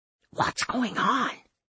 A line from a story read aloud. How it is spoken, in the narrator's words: Ray whispered